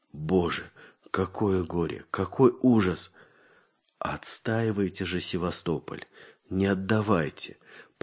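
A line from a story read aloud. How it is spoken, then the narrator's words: Weakening voice. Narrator (Russian): проговорил Владимир Алексеевич слабеющим голосом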